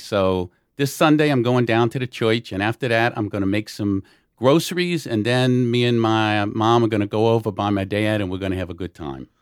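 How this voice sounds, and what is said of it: Put-on New Orleans yat accent. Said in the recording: “the true New Orleans accent is what they call a yat accent”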